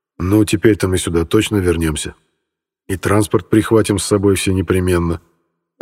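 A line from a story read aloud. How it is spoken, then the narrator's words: Plain. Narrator (Russian): ответил я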